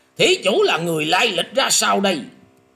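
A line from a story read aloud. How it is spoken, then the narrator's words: Thunderous shout. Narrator (Vietnamese): lão ta cất tiếng to như sấm nổ quát lên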